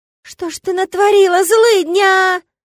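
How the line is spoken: Shocked wail. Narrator (Russian): Завопил ухватившийся за сердце Гыр и от потрясения

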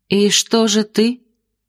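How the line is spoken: Uncertain question. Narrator (Russian): как-то неуверенно спросила Сильфида

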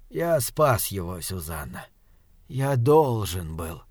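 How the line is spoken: Whispered. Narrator (Russian): прошептал доктор

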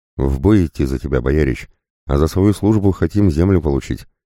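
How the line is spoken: Sharp reply. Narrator (Russian): резко ответил Иван

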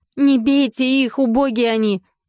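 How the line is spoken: Sudden startled shout. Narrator (Russian): вдруг крикнула Поля и сама испугалась своего голоса

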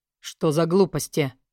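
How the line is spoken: Scoffing snort. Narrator (Russian): фыркнул Май

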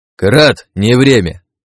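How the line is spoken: Steely shout. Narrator (Russian): крикнул я, вложив в голос как можно больше стальных ноток

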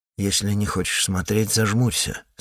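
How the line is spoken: Plain. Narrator (Russian): сказал я

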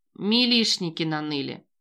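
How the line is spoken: Amused snort. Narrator (Russian): хмыкнул Локи

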